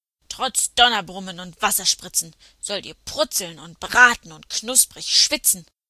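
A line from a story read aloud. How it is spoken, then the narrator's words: Roaring with gruesome grunts. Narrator (German): brüllte er mit greulichem Grunzen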